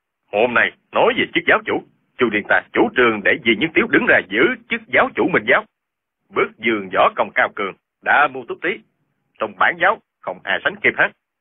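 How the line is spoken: Loud, stubborn shouting. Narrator (Vietnamese): Y nổi tính gàn, quát to

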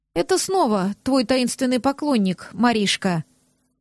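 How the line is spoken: Sad female remark. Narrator (Russian): грустно заметила Сеша

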